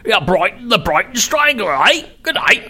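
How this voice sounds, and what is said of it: Put-on Cockney accent. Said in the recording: “another form of my English accent. Well, I could say it like Cockney”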